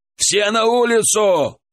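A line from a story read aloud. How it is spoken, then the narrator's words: Shouted. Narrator (Russian): крикнул Александр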